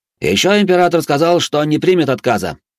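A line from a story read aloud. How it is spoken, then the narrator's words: Loud yelling. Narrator (Russian): Так же громко проорал Канц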